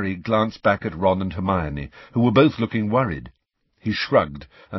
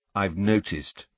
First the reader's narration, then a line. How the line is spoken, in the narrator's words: said Harry coldly